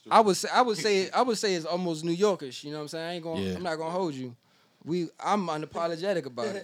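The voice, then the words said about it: Washington DC accent. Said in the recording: “you'll hear my slang and my voice and my accent, and you will be like, all right, this is a DC dude”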